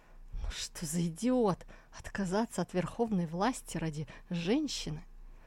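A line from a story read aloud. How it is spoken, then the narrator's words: Contemptuous mutter. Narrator (Russian): Очнувшись, император Джоу презрительно пробормотал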